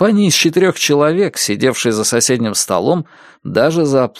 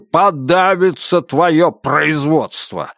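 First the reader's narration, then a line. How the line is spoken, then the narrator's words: Bark. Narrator (Russian): рявкнул Роджер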